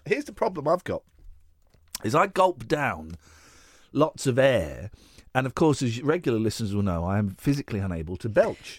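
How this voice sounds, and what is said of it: Congested voice from a cold. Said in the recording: “I've got a cold”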